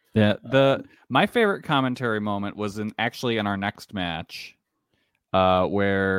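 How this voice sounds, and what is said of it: Usual voice. Nothing is said of it.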